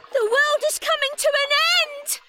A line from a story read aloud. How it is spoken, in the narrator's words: She cried